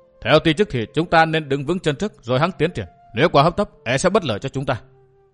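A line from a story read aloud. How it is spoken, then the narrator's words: Stern voice. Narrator (Vietnamese): Vũ Á Vinh nghiêm giọng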